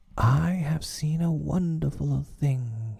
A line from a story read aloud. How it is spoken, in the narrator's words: he cried